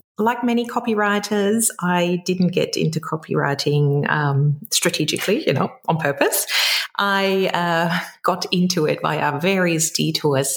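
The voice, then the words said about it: German accent in English. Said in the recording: “You might be able to pick up my accent. So I'm originally from Germany”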